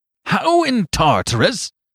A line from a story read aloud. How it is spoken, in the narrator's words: cried Flambeau